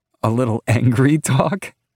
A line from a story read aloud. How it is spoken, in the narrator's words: She says, laughing with every word